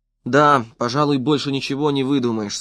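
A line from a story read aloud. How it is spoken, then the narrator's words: Plain. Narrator (Russian): сказал Стритер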